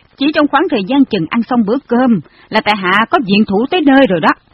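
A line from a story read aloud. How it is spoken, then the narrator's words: Loud laughing. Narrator (Vietnamese): Phương Tú ngửa mặt lên trời cười lớn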